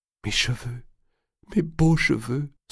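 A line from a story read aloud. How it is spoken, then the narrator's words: Sobbing. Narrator (French): sanglotait Blanche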